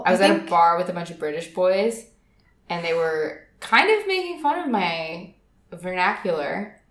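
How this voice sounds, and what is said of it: California girl accent. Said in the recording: “I am a California girl and I speak like a California girl ... my California girl voice”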